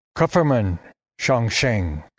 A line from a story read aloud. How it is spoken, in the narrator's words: the old man intoned in a thick Chinese accent